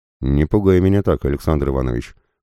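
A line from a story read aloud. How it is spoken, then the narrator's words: Muttered. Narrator (Russian): пробурчал Абадая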